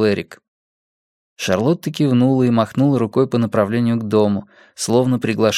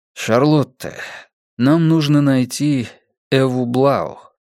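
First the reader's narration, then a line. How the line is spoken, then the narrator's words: Plain. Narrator (Russian): сказал Эрик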